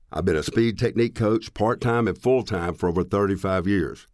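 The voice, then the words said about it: Southern US accent. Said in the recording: “as you can tell by the accent, I'm a Southerner, born and raised in Tennessee”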